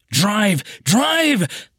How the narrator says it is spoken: screamed at the top of my lungs

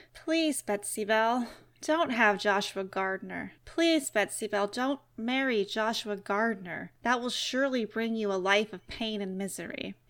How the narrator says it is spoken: The spirit did not approve, and in a soft and melancholy voice would beg

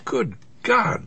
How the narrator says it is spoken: my Aunt Mag gasped, her face pale

